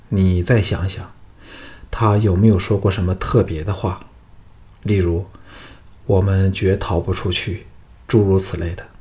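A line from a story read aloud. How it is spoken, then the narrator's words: Sighing. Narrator (Chinese): 项少龙叹了一口气，说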